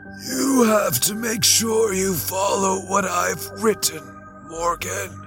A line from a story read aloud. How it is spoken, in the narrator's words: he wheezed